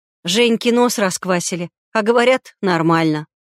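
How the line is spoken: Calm snort. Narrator (Russian): Невозмутимо фыркнула Лекс

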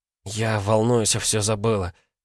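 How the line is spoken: Breathless exhale. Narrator (Russian): выдохнула

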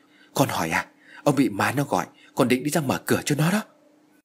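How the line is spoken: Old woman's trembling reply. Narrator (Vietnamese): Bà Hoài run rẩy trả lời

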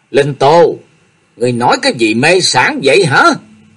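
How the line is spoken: Stern, frightened, angry shout. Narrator (Vietnamese): Hoa Miên vừa sợ vừa giận, nghiêm nghị quát lên

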